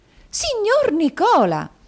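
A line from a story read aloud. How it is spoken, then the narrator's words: Surprised exclamation. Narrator (Italian): esclamò la signorina Lacrivi con un balzo di sorpresa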